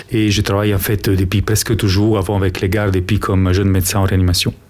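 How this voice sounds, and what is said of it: Italian accent in French. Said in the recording (French): “de mon accent, vous avez compris, je ne suis pas belge, je suis en fait italien”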